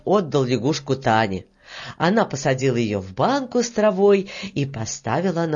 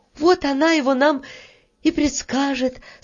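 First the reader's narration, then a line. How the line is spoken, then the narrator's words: Relieved sigh. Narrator (Russian): с облегчением вздохнула Таня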